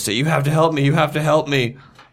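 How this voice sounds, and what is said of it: Panicked, frantic voice. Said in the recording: “in a panicked voice”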